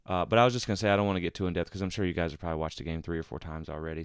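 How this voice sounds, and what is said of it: Sick, rough-sounding voice. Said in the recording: “As you can maybe tell by my voice, ... I actually have been under the weather ... I'm sorry if my voice sounds terrible.”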